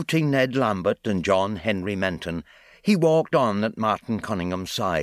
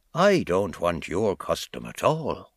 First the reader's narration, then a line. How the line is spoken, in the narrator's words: answered in a low voice